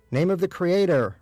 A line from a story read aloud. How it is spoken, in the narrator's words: Rabbi Breyer shouted from inside the nearby stall